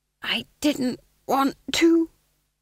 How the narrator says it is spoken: he hissed conspiratorially

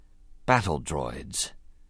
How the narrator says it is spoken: Qui-Gon said softly

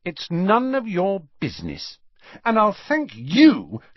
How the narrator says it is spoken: she added angrily to Ron

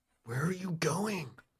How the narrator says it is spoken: Sam whispers to you

